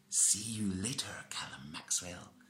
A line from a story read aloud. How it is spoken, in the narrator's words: vanishing cackle